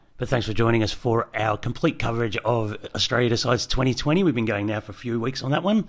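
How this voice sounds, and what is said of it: Cracking, worn-out voice. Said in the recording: “why my voice is cracking”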